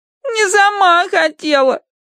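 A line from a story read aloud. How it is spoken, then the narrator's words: Nasal tearful. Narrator (Russian): прогундосила Агнес сквозь слезы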